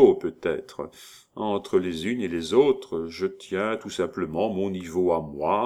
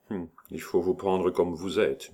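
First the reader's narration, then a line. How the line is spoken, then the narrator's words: Murmuring. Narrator (French): murmura-t-il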